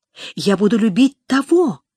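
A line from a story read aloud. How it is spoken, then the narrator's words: Passionate exclamation. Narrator (Russian): воскликнула она страстно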